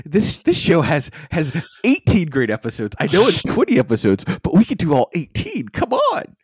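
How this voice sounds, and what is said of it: Excited, uber-excited nerd voice. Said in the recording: “my excited, uber excited nerd voice”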